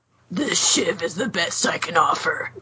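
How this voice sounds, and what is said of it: Impression of villain Wilson Fisk. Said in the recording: “That's a good impression. ... It's just like Wilson Fisk like just invaded my body for a moment there.”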